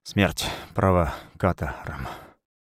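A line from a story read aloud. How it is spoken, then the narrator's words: Exhaled in four bursts. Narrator (Russian): Мамка в 4 приема выдохнула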